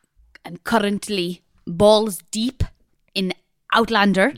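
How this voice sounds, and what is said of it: Silly put-on European-sounding accent. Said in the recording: “talking in that ridiculous voice ... You sound like a tennis player, a European tennis player ... that don't stop the accent. Anyone Scottish? ... still in the accent ... a bit German, a bit Russian, creeping in there”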